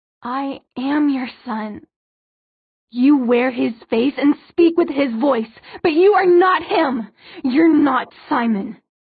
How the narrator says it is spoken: Her voice rose to almost a scream

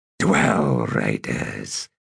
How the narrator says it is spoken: he said in a rumble, grinning

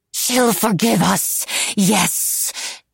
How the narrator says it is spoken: she breathed, wholly crazed

